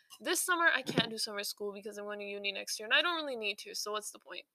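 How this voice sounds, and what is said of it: Very fast, breathless speech. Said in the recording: “I'm talking so fast, I can't breathe.”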